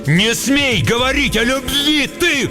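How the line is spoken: Shouted. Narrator (Russian): крикнул Шут

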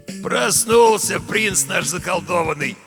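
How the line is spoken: Hoarse, glad voice. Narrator (Russian): обрадованно произнес хриплый голос

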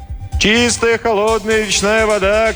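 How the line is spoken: Peddler shouting. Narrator (Russian): кричал разносчик

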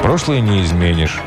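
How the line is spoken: Plain. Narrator (Russian): сказал я

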